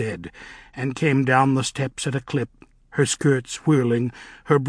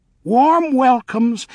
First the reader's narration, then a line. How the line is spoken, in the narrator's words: Nanny chirped